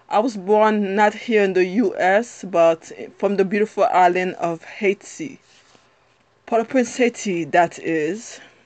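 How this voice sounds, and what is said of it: Strong Haitian accent. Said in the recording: “you'll hear of my wonderful accent ... I have a strong accent ... clearly when I open my mouth, you can see I'm not American ... there are gonna be times that my accent is very strong”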